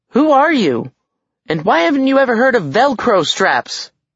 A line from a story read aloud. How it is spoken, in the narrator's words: Alex yelled